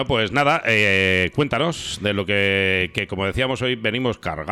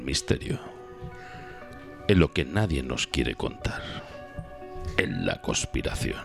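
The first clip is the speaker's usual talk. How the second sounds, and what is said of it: Deep mysterious voice. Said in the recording (Spanish): “hay que poner voz profunda de misterio.”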